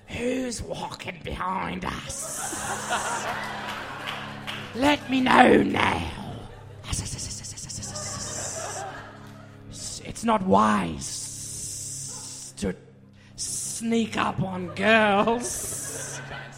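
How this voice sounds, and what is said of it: Parseltongue snake-language accent. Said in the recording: “do it in a Parseltongue accent ... That's exactly how it sounds in the movies.”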